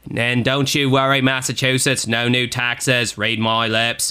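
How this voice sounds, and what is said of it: Poor Australian accent drifting into impression. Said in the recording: “whenever I do an Australian accent, it sounds like an inbred cross between John F. Kennedy and, like, an Australian accent. It starts out kind of Australian, and it ends sounding like John F. Kennedy ... It's very pathetic.”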